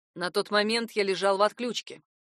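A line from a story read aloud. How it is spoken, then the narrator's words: Plain. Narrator (Russian): сказал Фрост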